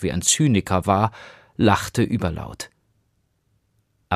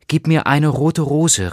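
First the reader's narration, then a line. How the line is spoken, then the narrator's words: Calling out. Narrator (German): rief sie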